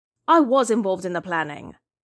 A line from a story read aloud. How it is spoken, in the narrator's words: Hikaru said irritably